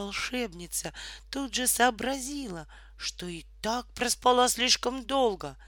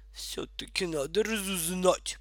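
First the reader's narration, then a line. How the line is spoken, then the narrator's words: Grumbling. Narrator (Russian): пробурчала она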